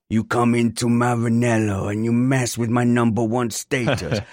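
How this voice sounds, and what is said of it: Imitated French-accented voice. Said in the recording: “That was an impression of Leclerc ... Your French is spot on”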